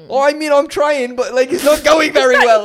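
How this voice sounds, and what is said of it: Bad attempt at Irish accent. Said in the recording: “That's a terrible Irish accent because it's not an Irish accent... No, it does not sound Irish in the slightest.”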